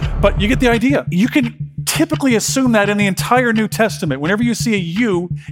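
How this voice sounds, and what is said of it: Usual voice. Nothing is said of it.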